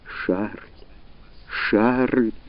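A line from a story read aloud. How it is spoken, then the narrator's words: Sobbing. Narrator (Russian): рыдала возле него Рене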